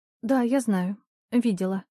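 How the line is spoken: Timid. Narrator (Russian): робко ответила Аня

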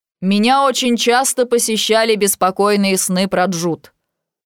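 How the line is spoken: Loud voice. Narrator (Russian): начинает громким голосом

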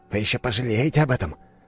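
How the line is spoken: Hissing. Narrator (Russian): прошипел он

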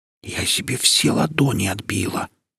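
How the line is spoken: Whisper. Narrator (Russian): шептала матрешка

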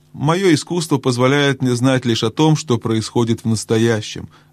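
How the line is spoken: Plain. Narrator (Russian): ответил отшельник

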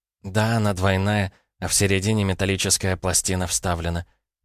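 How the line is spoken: Muffled moan. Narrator (Russian): простонала Дарья, закрыв лицо руками

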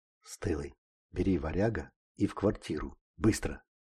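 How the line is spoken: Bandit whispering. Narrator (Russian): прошептал бандит

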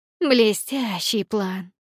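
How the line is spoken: Sarcastic hiss. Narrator (Russian): прошипела Никс

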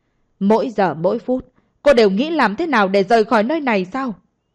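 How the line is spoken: Angry, raised voice. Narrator (Vietnamese): đột nhiên nổi giận, giọng nói cũng tăng thêm vài phần âm lượng, giận dữ hỏi

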